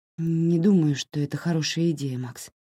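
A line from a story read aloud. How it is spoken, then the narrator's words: Sigh then speech. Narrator (Russian): вздохнула и сказала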